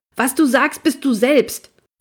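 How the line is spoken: Bellowing. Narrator (German): ich ... brülle

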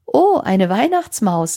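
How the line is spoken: Laughing grandmother. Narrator (German): lachte Oma

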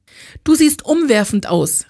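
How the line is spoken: Call through closed door. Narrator (German): rief sie Ella durch die immer noch geschlossene Autotür zu

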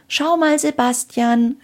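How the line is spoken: Called up. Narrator (German): rief Anna zu Sebastian hinauf

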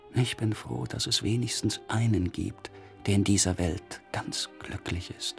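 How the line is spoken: Quiet, disappointed. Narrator (German): sagte leise ein Enttäuschter

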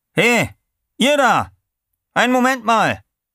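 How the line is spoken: Calling out. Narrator (German): rief er zu

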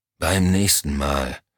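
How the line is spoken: Dry reply. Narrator (German): entgegnete Henry Elm trocken

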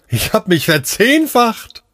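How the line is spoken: Laughing explanation. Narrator (German): erklärte lachend

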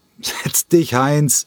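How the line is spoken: Loud laughing dismissal. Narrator (German): wiegelte lauthals lachend ab

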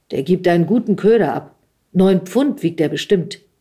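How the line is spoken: Loud. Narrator (German): sagte er laut

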